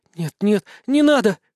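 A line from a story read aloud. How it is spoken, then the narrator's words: Terrified breathless gasp. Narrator (Russian): выдохнула она с ужасом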